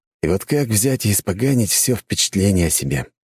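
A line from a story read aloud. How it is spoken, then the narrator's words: Sighing. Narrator (Russian): вздохнул я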